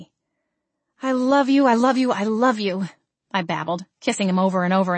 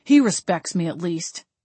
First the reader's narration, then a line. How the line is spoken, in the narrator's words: Zeb grumbled